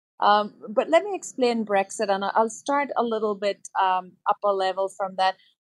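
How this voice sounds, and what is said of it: Belfast accent. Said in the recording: “I still have the accent from Belfast”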